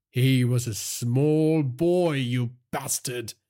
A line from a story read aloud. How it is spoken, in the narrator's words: Virat said, his voice tinged with rage and sadness